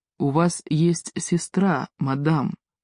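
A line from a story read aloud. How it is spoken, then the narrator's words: Gentle reminder. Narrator (Russian): мягко напомнил он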